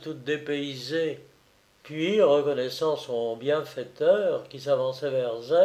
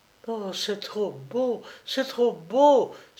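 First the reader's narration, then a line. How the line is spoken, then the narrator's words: Pretty childlike exclaiming voice. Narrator (French): s'écriait Mitza avec une jolie voix toute enfantine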